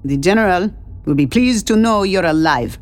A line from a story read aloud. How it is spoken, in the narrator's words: the soldier said with a distinct accent